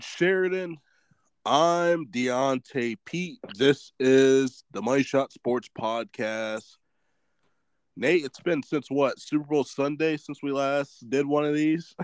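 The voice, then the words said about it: Congested voice from a cold. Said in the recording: “getting over a cold. So if I sound a little congested”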